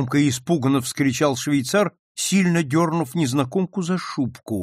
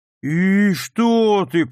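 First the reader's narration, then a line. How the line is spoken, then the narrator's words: Drawling. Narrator (Russian): протянул тот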